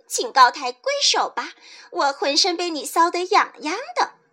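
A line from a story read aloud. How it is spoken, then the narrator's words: Thin, giggling voice. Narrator (Chinese): 那个很细的声音，笑嘻嘻地说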